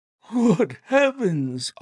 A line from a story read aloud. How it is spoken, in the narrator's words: I cried in amazement